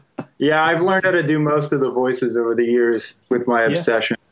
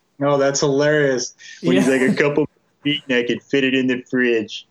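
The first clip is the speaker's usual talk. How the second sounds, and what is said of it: Homer Simpson cartoon voice impression. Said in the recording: “That was a great impression ... Probably Homer ... that was pretty damn good”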